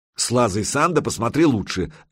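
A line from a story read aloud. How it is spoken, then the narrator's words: Snapping back. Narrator (Russian): огрызнулся рассказчик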